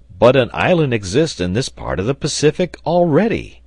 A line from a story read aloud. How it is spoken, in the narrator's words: he exclaimed